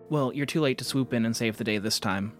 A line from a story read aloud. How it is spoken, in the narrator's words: I said